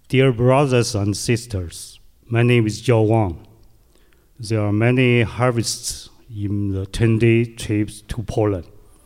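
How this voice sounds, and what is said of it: Heavy foreign accent. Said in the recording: “Sorry for my heavy accent,”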